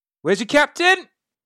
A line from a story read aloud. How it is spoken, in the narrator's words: she shouts up to the boat